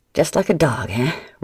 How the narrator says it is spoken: Rook snorted

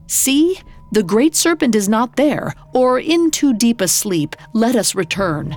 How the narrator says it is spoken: His voice shook as he insisted

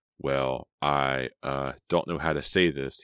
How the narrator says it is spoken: he stammered

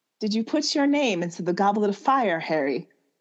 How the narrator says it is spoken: He asked calmly

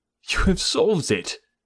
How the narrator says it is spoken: I cried

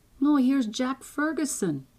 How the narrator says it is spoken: exclaimed Malcolm

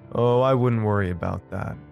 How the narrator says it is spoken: he said, chuckling to himself

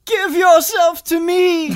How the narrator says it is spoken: her giant body turns to you, and she screams

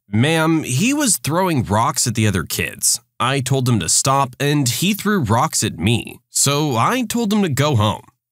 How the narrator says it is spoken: I calmly responded

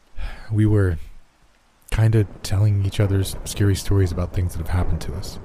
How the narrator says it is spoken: Jeff said quietly

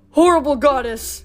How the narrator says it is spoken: bellowed

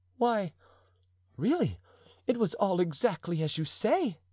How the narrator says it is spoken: cried Madame de Chevreuse

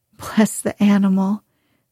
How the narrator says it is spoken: said the girl, laughing

